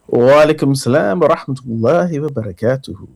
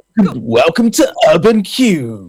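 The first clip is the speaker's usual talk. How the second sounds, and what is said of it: Polished radio presenter voice. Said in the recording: “I did feel like putting my radio voice on”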